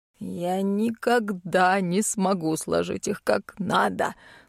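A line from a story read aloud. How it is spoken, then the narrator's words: Muttering ghost. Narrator (Russian): бормотал призрак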